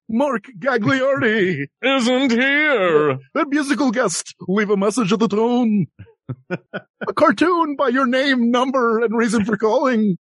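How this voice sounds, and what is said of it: Imitates an announcer's voice. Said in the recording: “your impression of Don Pardo”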